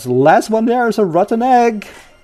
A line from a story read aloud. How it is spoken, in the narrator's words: One of them shouts